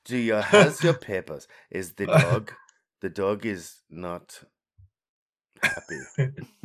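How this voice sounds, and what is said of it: Bad put-on German accent. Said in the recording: “Bad German accent.”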